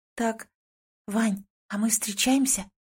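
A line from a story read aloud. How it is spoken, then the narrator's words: Sudden quiet impulsive question. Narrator (Russian): Внезапно тихо спрашиваю, даже не успев толком подумать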